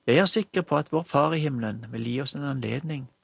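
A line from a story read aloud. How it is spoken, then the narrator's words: Plain. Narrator (Norwegian): svarte fiskeren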